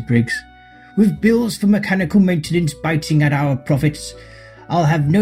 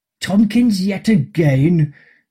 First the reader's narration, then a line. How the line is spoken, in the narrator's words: groaned Mr